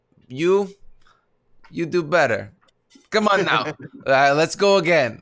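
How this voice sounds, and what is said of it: Almost Russian-sounding imitation of a man. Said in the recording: “I love your impression of him. ... It's like kind of like Russian almost.”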